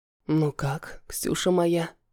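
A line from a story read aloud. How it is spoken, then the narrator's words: Husky excited whisper. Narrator (Russian): шепчет муж хриплым от возбуждения голосом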